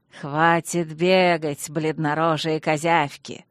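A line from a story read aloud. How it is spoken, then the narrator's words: Arrogant, nasty goblin drawl. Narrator (Russian): высокомерно и гнусно процедил гоблин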